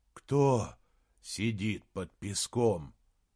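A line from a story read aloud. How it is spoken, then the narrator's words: Breathless exhale. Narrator (Russian): выдохнул Саймон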